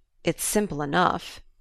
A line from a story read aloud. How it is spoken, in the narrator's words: he muttered